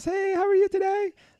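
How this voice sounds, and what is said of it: High falsetto Mickey Mouse voice. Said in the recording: “I can speak like Mickey Mouse. ... That's called falsetto.”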